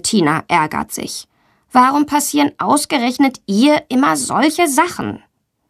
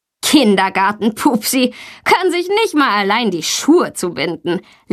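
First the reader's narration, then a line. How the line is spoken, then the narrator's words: Laughing. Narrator (German): lacht Tommy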